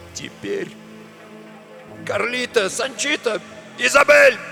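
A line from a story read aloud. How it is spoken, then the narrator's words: Loud bark. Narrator (Russian): гаркнул он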